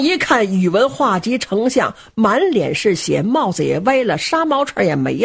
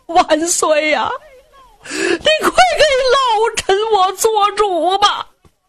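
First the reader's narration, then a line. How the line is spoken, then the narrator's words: Weeping plea. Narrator (Chinese): 宇文化及 扑通一声跪倒在金殿之上，冲着阳光就哭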